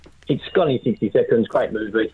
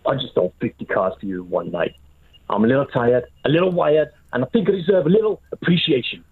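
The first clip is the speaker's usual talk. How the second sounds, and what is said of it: Imitates another person's voice. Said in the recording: “your Nicolas Cage impression”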